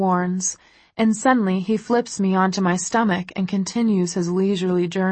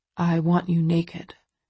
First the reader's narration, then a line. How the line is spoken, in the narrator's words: he murmurs